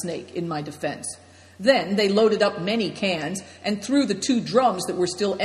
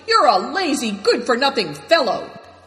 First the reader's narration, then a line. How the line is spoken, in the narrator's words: Greencoat shouted